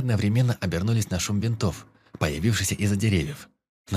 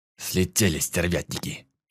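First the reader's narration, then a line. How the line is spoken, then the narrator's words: Angry cursing professor. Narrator (Russian): зло выругался профессор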